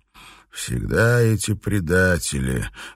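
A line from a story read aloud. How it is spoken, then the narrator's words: Sad. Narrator (Russian): грустно проговорил он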